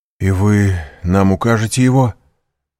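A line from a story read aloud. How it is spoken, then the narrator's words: Exclaiming. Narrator (Russian): воскликнул Максимилиан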